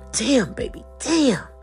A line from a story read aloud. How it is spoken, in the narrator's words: Jaquan began to moan intensely, and he yelled